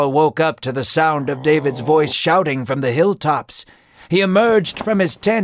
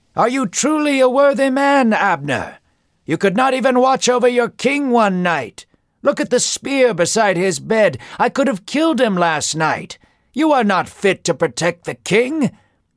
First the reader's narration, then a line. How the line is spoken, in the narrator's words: David as he shouted